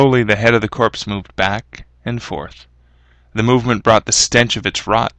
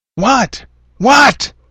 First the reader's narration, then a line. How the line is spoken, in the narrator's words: Harry started to yell